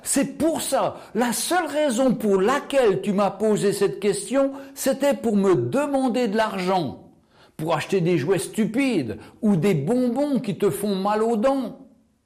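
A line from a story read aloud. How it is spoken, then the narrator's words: Exclamation. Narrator (French): Elle s'écria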